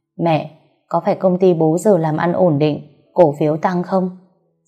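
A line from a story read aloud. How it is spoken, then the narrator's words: Cold smirking question. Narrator (Vietnamese): Tôi cười nhạt hỏi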